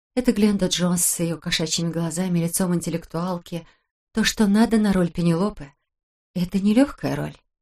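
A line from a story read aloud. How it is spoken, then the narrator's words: Muttering. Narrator (Russian): пробормотала она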